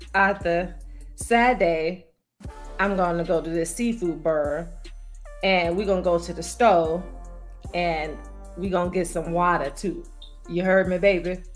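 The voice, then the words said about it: Put-on New Orleans accent. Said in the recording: “I'm going to say it the New Orleans way ... you sound like you from the outskirts of New Orleans ... You sound like you may be from like Slidell, or maybe from the West Bank.”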